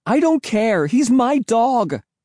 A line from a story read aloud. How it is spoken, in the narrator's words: I screamed